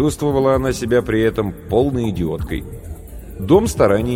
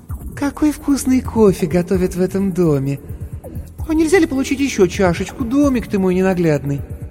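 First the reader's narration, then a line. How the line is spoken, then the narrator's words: Sickly sweet voice. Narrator (Russian): сказала приторно-умильным голосом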